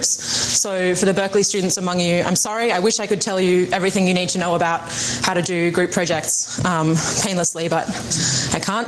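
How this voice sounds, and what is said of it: British accent. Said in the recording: “keep this British accent in mind as she was speaking”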